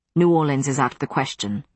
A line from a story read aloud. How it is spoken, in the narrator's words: Matthew said sharply